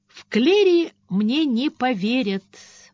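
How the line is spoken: Exclamation. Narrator (Russian): воскликнула Бриана

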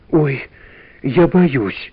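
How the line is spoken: Whisper. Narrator (Russian): прошептала Валя

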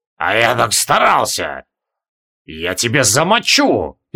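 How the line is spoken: Growl. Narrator (Russian): прорычал Асанте

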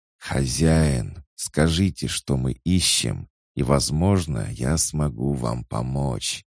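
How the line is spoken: Hissing. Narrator (Russian): прошипел Ерм

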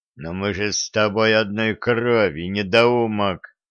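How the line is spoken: Hiss. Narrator (Russian): Прошипел ведун

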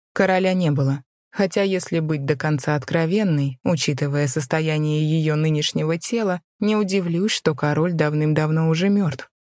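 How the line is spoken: Indifferent tone. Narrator (Russian): равнодушным тоном произнесла

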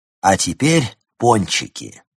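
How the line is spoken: Cheerful exclamation. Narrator (Russian): весело воскликнул Нильс Густав

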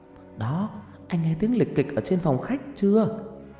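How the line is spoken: Whispering. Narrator (Vietnamese): vợ lay dậy thì thầm

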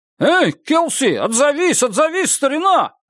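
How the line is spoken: Shout, young speaker. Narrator (Russian): крикнул юный сосед Гарри

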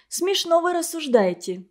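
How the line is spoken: Calm. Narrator (Russian): спокойно сказала Женя

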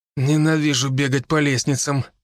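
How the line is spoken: Groaning. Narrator (Russian): простонал Даня

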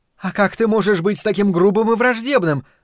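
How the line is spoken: Exclaiming. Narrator (Russian): воскликнула она

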